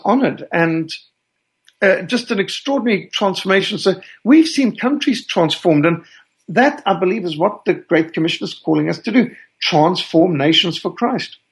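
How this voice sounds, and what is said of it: Rhodesian South African accent. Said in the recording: “I detect an accent in your voice ... my accent is actually more Rhodesian than South African”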